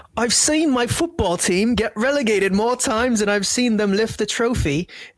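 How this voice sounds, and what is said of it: Put-on British accent. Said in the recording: “read this in a British accent.”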